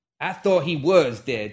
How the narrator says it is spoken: she snarled

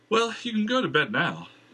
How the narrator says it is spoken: Jenner yawned, feeling sleepy himself

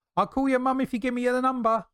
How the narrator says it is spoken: shouted through the door

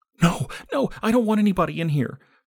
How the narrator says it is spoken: the girl pleaded

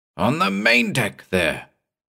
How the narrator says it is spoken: shouted Captain Geldy sternly

